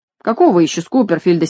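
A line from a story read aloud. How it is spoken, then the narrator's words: Angry reply. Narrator (Russian): сердито отвечала хозяйка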